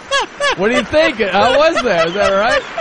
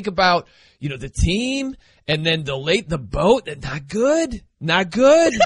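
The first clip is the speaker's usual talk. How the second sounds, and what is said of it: Imitates another person's voice. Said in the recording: “You got the mannerisms down ... impersonated.”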